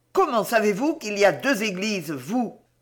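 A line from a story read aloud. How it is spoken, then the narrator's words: Harsh growling female voice. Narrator (French): gronda-t-elle de cette voix si dure qu'à peine pouvait-on concevoir qu'elle sortît de cette bouche si délicate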